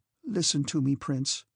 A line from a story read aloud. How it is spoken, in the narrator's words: said she